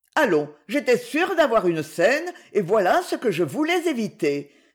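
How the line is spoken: Curt, dry retort. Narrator (French): répliqua sèchement la baronne

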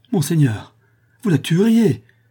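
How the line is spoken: Exclaiming. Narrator (French): s'écria le squire

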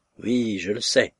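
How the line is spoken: Grave reply. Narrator (French): répondit Solomine d'un ton grave

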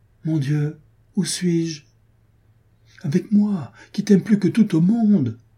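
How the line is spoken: Joyful prince exclaiming. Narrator (French): s'écria le fils de roi plein de joie

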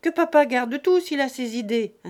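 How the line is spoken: Curt, touchy interruption. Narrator (French): interrompit sèchement Fanny, très susceptible

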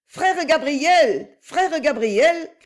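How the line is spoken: Shouted. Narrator (French): cria-t-elle

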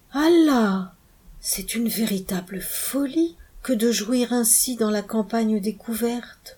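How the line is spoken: Murmured. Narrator (French): murmura le maquignon

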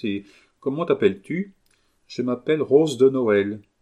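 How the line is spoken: Sad princess. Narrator (French): dit tristement la princesse

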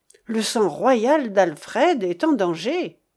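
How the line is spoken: Exclamation. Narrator (French): s'écria Cédric

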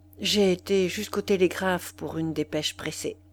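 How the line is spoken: Low voice. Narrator (French): Il répondit à voix basse

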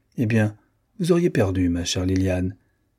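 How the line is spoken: Curt, almost pained. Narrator (French): fit Sylvia d'un ton bref, presque souffrant

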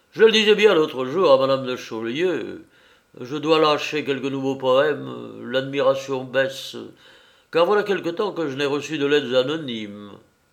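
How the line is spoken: Exclaimed. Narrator (French): s'écria Canalis

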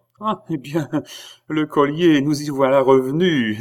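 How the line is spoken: Laughing exclamation. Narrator (French): s'écria Marie-Antoinette en riant

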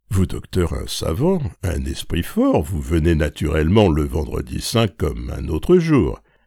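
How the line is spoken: Confident, certain tone. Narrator (French): dit-elle à Cottard la première année d'un ton assuré comme si elle ne pouvait douter de la réponse

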